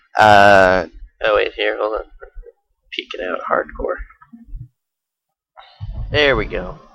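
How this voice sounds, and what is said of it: Hoarse, fading voice. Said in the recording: “You don't sound better. ... I'm losing my voice now.”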